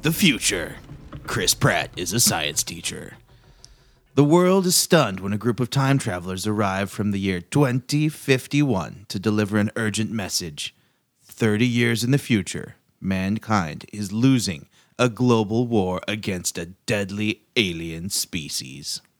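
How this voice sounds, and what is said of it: Velvety movie-trailer announcer voice. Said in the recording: “velvety announcer voice”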